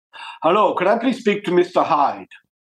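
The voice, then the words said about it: Put-on accent imitating a caller. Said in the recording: “I'm just doing the accent. ... this is a pretty accurate version of who rang.”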